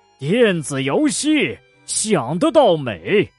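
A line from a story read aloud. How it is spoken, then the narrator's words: Growing angrier. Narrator (Chinese): 他越说越生气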